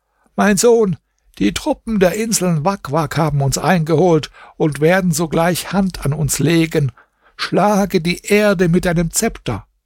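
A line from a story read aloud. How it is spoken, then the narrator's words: Old woman calling out. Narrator (German): die Alte rief ihm zu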